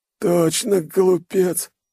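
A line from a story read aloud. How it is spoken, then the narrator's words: Hoarse wheeze, spitting blood. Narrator (Russian): сплевывает он кровь, хрипя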